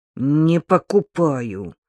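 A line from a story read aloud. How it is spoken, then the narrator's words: Reply through clenched teeth. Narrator (Russian): сквозь зубы ответила Маша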